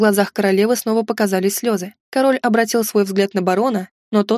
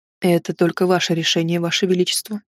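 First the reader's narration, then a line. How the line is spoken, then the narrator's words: Quiet speech. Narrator (Russian): тихо сказал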